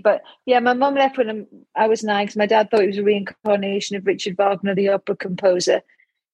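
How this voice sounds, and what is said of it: Geordie accent. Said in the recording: “from my accent, you can tell I'm a Geordie ... it gets stronger every time I go up to the factories”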